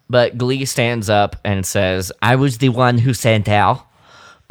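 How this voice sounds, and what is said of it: Bad put-on French accent. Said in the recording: “that's my shit impression of a French accent.”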